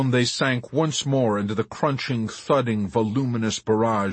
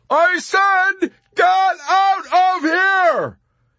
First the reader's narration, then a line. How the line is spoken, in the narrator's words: Yossarian shouted and broke into tears